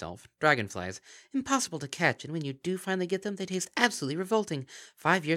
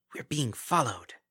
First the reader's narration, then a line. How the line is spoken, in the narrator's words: sniffing suspiciously, hissed